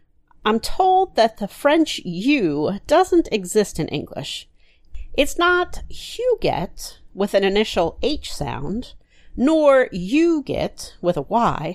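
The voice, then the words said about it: Southern American accent. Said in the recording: “my southern accent still has trouble with it”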